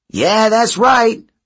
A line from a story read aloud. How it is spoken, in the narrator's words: Leo yelled at them